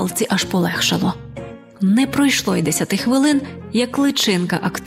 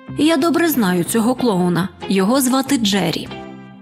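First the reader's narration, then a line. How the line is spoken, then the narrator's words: Loud. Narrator (Ukrainian): риба-крапля голосно сказала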